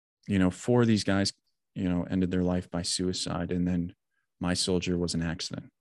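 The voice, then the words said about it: Trembling, emotional voice. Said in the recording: “you can undoubtedly hear the trembling in my voice.”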